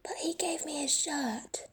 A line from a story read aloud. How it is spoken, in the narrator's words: Tubbo whispers back